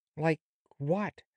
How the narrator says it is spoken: questioned Dorothy eagerly

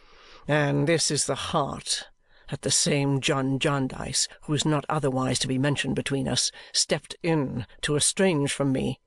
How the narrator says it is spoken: said he indignantly

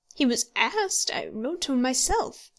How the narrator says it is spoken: said the warden

